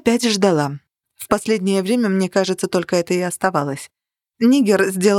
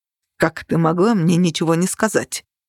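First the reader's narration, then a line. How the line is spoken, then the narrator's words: Sharp question. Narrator (Russian): резко спросил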